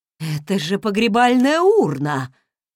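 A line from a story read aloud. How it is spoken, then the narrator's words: Horrified exclamation. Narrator (Russian): воскликнул торговец в таком ужасе, словно боялся, что урну выбрали лично для него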